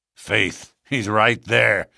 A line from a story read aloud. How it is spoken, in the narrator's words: said McGinty grimly